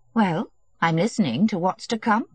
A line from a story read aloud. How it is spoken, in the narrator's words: said, calmly and ironically